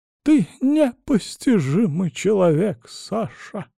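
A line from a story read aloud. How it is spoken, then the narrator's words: Sighing woman. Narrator (Russian): вздохнула она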